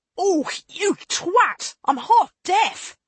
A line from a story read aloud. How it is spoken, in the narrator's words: she snapped